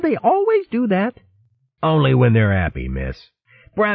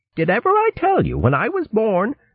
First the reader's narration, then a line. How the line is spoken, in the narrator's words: Pa cried